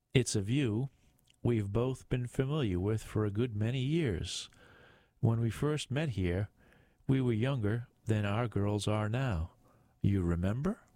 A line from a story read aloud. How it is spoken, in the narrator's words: she asked